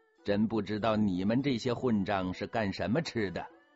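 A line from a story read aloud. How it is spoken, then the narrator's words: Laughing. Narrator (Chinese): 福康安笑着说了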